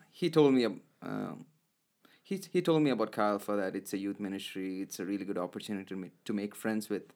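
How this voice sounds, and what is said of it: Indian accent. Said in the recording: “I have an accent, mm-hmm. Indian accent, and my pronunciation sometimes is not good”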